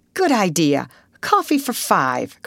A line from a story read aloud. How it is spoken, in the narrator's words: cried Russ, as though giving orders to a restaurant waiter